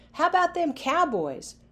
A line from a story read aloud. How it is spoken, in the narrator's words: Players yelled